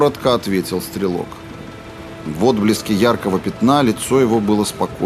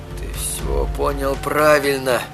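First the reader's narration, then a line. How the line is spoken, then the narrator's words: Wordless wheezing. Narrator (Russian): попытался ответить Эдди, но ни одного слова не сорвалось с его губ, только какие-то хрипы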